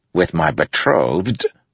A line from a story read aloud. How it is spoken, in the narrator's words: said through gritted teeth